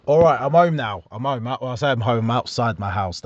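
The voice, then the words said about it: Talking loudly. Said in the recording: “That's why I'm talking so loud,”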